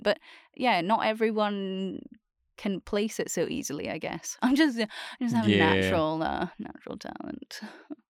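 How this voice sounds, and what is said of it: Scottish accent. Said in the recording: “this is a Scottish accent.”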